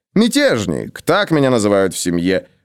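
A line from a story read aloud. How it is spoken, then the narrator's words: Good-natured grumble. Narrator (Russian): добродушно ворчал он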